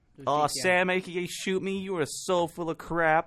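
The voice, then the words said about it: Put-on American accent. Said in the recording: “that's my American accent ... Italian-American.”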